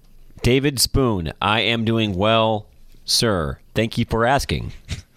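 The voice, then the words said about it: Robotic, mechanical-sounding speech. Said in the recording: “It's very, like, robotic.”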